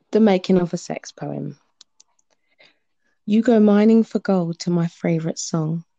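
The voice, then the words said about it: British accent. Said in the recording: “you can hear her British accent.”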